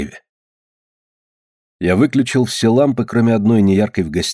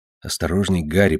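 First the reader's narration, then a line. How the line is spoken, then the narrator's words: Whispering. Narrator (Russian): прошептал я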